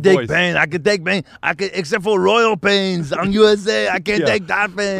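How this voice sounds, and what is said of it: Arnold Schwarzenegger impression. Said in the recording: “somehow it involved Schwarzenegger ... Doing the voice”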